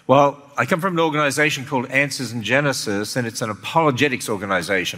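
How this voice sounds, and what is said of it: Australian accent. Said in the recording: “I came from Australia originally, so I hope I still sound like that ... the Australian accent”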